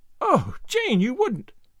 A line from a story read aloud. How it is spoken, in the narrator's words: cried Anne, shocked